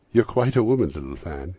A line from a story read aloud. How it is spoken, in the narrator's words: exclaimed the boy